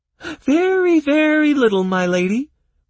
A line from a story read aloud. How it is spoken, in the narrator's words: reported the bog creature cheerfully